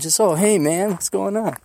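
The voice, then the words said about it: Laid-back California accent. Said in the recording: “He got that California accent. Not the dude man pot smoking.”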